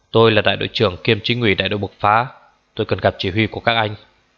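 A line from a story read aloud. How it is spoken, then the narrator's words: Flustered loud shout. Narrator (Vietnamese): Anh ta luống cuống quát to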